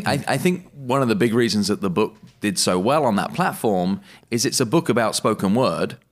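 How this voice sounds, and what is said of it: Speaker with a distinctive accent. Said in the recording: “you just have the cool accent? ... there are other people with a similar accent, perhaps many that have better diction than me”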